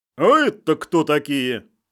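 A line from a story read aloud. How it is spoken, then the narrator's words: Stern question. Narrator (Russian): Строго спросил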